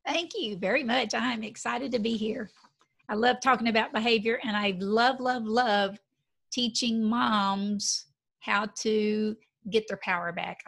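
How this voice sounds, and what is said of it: Texas Southern accent. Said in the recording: “her little Texas Southern accent”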